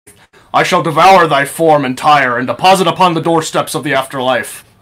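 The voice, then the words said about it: Archaic, esoteric theatrical voice. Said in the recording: “His accent changes from archaic and esoteric to proper high class.”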